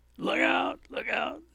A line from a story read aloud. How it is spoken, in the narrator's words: somebody screamed